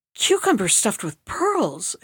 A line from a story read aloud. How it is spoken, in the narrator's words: exclaimed the princess